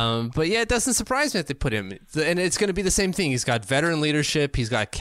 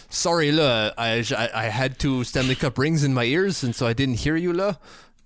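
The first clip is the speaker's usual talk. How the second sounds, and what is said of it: Put-on French accent. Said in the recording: “I should do that with a French accent. ... That was pretty, like, right on, actually”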